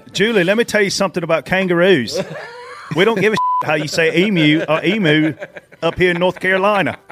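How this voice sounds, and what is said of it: Put-on Australian accent. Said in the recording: “That's the best Australian accent anybody from Pageland has ever given.”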